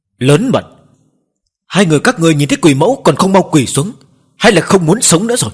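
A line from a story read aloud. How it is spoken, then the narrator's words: Burly man shouting loudly. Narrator (Vietnamese): Một tráng hán lớn tiếng quát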